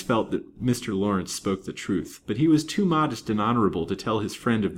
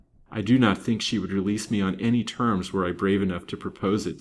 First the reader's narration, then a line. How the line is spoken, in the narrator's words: said Lance